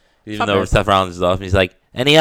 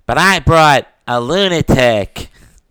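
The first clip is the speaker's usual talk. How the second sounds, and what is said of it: Imitates a wrestler's voice. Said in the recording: “my Seth Rollins impression ... he always talks like this”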